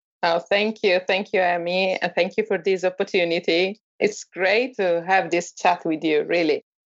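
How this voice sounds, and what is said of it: Italian accent. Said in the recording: “picture yourself sitting in Italy right now, because this accent that ... has, and it's absolutely over the moon phenomenal”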